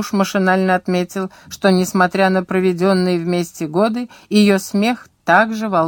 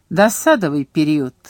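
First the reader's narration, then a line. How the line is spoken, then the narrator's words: Laughter. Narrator (Russian): Элис Таннер рассмеялась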